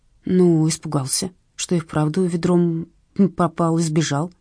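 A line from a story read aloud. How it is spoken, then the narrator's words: Uncertain. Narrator (Russian): неуверенно сказала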